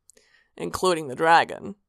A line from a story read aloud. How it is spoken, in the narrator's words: Sanguine said dryly